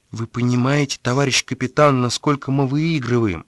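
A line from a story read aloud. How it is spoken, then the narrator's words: Outwardly calm tone. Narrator (Russian): говорил он все тем же внешне спокойным тоном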